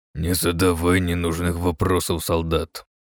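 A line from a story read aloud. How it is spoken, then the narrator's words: Sudden harsh growl. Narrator (Russian): неожиданно резко прорычал Террен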